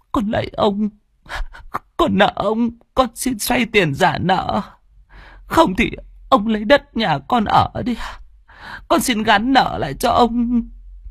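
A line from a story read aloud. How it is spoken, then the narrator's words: Tearful whimpering. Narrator (Vietnamese): Chị miến mếu máo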